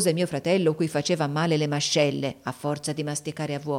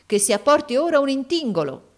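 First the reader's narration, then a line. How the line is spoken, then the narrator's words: Exclaimed. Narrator (Italian): esclamò il Barmecida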